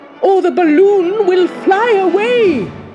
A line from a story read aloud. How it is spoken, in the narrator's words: cried Oz